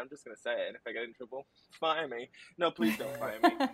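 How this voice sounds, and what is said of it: Foreign accent. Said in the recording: “I'm obviously not from here, hence this accent”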